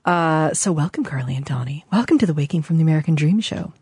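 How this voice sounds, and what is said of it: Fake NPR radio announcer voice. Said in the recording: “doing my fake NPR voice.”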